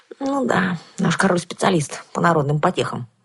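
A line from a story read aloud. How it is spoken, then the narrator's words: Sighing. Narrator (Russian): вздохнула я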